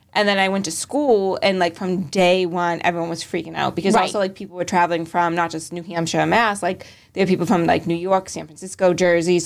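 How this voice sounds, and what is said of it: Boston accent. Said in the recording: “My sister has a Boston accent. It's just not as strong. ... in Boston, no one ever commented on my accent, because we all sound like that ... I honestly think my accent got like stronger”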